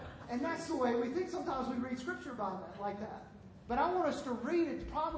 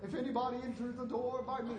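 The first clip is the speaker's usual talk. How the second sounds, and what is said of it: Put-on British Shakespearean accent. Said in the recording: “Jesus was speaking in a British accent? ... Like Shakespearean English here.”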